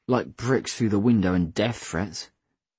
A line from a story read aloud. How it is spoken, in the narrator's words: I scoffed